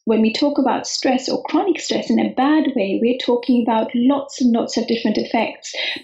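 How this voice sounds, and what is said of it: Calming English accent. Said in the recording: “why does your accent calm me down? ... I did live in England for quite some time, and I found it pretty calming”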